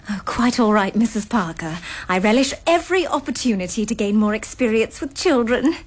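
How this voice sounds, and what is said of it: English accent. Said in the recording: “I love your accent. Are you from England? ... I thought it sounded English.”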